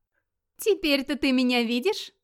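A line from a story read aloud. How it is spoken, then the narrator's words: Laughing question. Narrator (Russian): смеясь спросила Грюла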